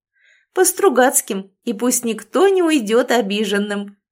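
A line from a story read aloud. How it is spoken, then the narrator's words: Loud laughter. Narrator (Russian): расхохоталась Лиля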